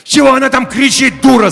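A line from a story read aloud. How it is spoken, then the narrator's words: Yelling. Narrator (Russian): заорал я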